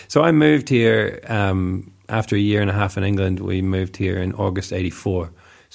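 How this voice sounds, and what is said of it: Mixed New Zealand accent. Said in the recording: “that's where my accent comes from ... a little New Zealand boy”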